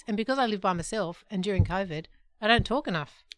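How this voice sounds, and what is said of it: Weak, tired-sounding voice. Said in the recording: “I've got a really weak voice ... my voice is really weak ... can't you hear my voice? It's so lame. ... It just sounds weak. A bit tired.”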